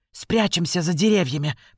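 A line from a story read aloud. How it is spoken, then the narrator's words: Whispered. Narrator (Russian): прошептала она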